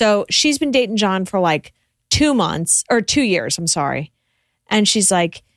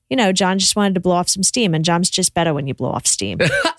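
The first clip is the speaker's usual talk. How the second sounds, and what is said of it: Put-on Boston accent. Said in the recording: “Perfect accent. ... I have a great Boston accent. ... Perfect Boston accent.”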